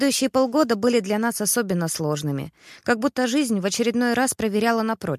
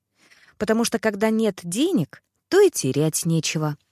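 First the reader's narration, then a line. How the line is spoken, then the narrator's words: Cheerful. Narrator (Russian): весело закончил муж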